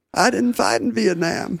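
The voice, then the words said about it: Imitates another person's voice. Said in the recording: “hey, that's a great Clinton impression.”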